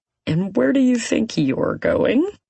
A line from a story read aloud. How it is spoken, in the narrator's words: It's Ty, his voice filled with amusement